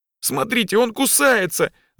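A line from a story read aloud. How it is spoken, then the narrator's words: Shouted. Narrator (Russian): закричал Коля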